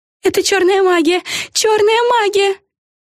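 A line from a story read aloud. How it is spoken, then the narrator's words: Sudden yell. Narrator (Russian): внезапно завопила одна из них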